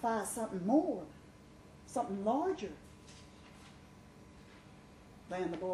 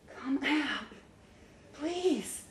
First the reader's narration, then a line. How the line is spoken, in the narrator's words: she begged, tears moving over her lips